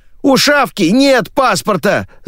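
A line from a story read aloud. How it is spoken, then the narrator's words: Young man shouting. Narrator (Russian): закричал парень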